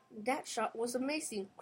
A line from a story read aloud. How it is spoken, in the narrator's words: cried Carlos